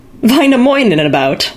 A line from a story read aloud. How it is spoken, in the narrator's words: laughed the mayor